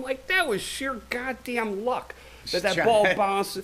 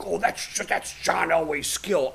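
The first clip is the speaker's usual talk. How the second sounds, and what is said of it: Sports announcer impression, like Jesse Ventura. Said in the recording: “It sounded like it was, you know, Jesse Ventura. From that impression, was Jesse Ventura?”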